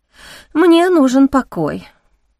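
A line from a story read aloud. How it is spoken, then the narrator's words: Sighing. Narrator (Russian): вздохнула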